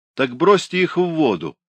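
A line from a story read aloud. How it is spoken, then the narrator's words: Shouted. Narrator (Russian): закричали с Карбаса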